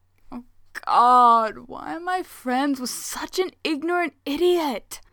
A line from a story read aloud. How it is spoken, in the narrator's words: Hayato groans